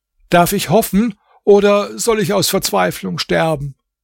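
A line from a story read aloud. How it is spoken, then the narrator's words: Calling out. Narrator (German): rief er ihr entgegen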